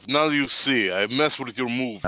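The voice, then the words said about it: Bad put-on Russian accent. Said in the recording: “my Russian accent's done. I don't have a Russian accent ... That's the beauty of the Russian accent. You can make it terrible.”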